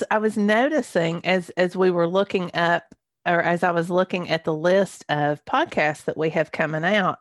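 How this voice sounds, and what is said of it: Croaky, hoarse throat. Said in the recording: “I have a frog in my throat this morning.”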